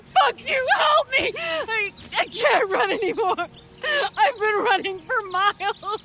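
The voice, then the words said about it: Gasping, sobbing shouts. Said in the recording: “Gasping for air, she sobs.”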